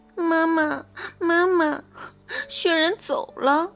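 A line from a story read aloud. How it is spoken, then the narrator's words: Crying child. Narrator (Chinese): 小兔子哭着对妈妈说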